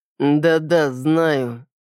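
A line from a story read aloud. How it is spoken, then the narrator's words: Slow, gloomy. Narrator (Russian): медленно и мрачно проговорил мистер Кристиан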